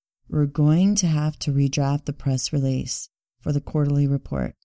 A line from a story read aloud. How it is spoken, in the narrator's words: she said flatly